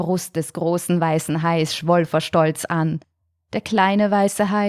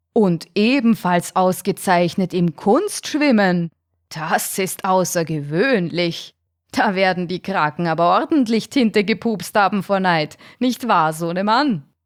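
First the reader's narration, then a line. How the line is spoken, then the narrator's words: Loud laughing shark. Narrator (German): Der große weiße Hai lachte laut auf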